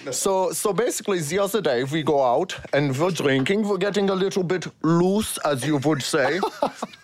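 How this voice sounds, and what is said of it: Put-on German accent. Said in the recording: “does this German accent, and it is so funny and good ... Tell the story in the German accent.”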